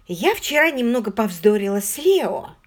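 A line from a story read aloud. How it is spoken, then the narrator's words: Forced out hesitantly. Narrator (Russian): выдавила наконец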